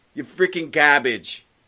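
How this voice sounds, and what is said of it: Put-on Boston accent. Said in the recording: “with a Boston accent”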